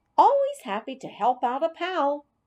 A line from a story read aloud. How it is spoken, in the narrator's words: squeaked